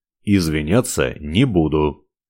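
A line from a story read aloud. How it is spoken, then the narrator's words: Calm declaration. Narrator (Russian): спокойно заявил он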